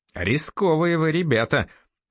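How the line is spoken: Irritated remark. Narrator (Russian): раздраженно заметил Андрей

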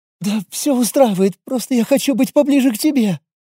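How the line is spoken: Whining girl near tears. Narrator (Russian): прохныкала девушка, явно готовая расплакаться

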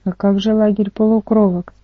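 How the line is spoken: Plain. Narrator (Russian): спросил Ника

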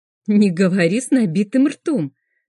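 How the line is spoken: Laughing. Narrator (Russian): начинаю смеяться

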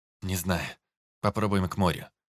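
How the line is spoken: Breathed out. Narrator (Russian): выдохнул Антон

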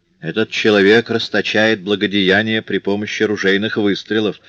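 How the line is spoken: Plain. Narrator (Russian): ответил Комбефер

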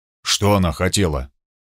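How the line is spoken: Low-voiced question. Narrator (Russian): Зигфрид спросил вполголоса

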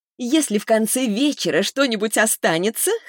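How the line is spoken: Chuckled. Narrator (Russian): хохотнула Лиза

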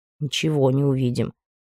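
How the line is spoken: Gloomy reply. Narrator (Russian): мрачно ответил Анри, уже догадавшийся, что спать он будет в другой раз

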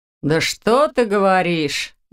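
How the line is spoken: Sarcastic reply. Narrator (Russian): язвительно отозвался Доминик

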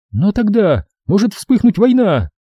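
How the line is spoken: Exclaimed. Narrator (Russian): воскликнула Дрен

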